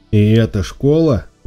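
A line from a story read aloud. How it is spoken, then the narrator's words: Exclamation. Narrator (Russian): воскликнул Шон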